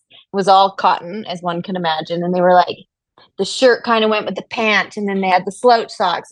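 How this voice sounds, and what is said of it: Canadian accent. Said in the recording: “that Canadian accent”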